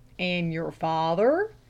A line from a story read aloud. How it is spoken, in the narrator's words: drawled the lay reader